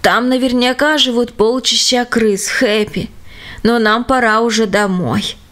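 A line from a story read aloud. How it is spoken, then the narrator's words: Tired. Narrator (Russian): сказал устало почтальон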